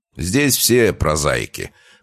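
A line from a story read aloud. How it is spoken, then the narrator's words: Snorting young man. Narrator (Russian): хмыкнул худощавый парень, лет 30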